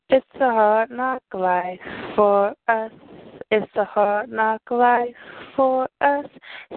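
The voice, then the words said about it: Strained, cracking, worn-out singing voice. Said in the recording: “I keep on losing my voice, so if it cracks, just bear with me.”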